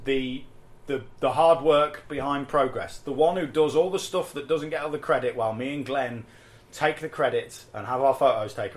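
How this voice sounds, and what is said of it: English Midlands accent. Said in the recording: “my horrible Midlands accent”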